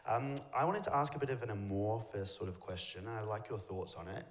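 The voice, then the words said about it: Australian accent. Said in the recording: “as you can tell by my accent, I am Australian.”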